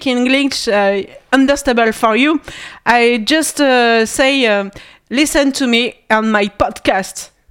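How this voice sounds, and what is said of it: Heavily French-accented English. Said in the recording (French): “Mon anglais est totalement pourri. ... Enlarge your accent. ... I like my accent very bad”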